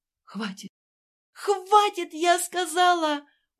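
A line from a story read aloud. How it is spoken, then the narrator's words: Hysterical scream. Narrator (Russian): уже совсем истерично закричала Ася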